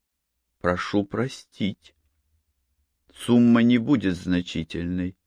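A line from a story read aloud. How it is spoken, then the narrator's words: Soft gentle speech. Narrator (Russian): мягко сказала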